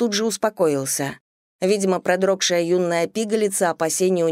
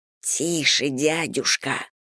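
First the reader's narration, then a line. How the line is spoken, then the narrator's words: Hissed, young man. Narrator (Russian): прошипел молодой мужчина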